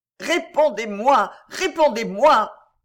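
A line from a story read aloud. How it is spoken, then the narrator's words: Anguished cry. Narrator (French): s'écria Stein en se tordant les mains dans l'attitude d'un homme accablé par la douleur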